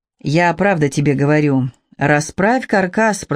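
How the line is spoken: Fatherly tone. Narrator (Russian): продолжал Капустин отеческим тоном

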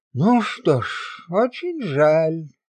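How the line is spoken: Sad. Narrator (Russian): произнес печально

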